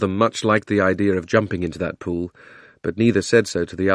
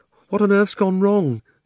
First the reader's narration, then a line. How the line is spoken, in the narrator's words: said Polly in a frightened voice, but not quite so frightened as you might expect